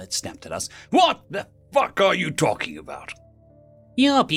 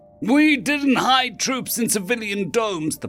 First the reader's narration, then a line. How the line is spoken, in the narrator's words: the pilot shouted